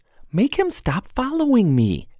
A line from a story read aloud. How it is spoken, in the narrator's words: Jade pleaded